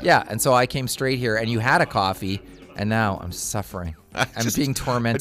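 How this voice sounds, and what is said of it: Cracking voice from a cold. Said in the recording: “my voice cracked. I have a cold. ... I have a brutal cold”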